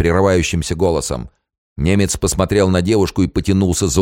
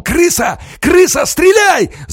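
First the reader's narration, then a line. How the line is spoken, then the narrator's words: Yelling. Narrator (Russian): заорал Алексей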